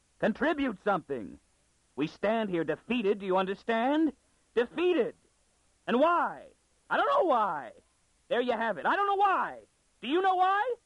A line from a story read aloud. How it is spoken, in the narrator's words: shouted Stetton at him